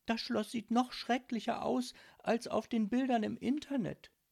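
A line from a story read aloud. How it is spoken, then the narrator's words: Sighing. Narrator (German): seufzte sie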